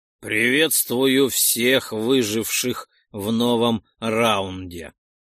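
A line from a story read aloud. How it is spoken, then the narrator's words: Booming, echoing. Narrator (Russian): прогремел отовсюду его голос, который звонко запрыгал по многочисленным стенам коридоров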